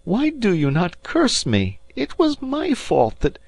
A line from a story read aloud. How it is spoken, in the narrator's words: he cried